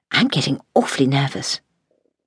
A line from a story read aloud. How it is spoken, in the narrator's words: Louisa whispered